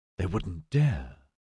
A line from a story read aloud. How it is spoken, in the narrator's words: she whispered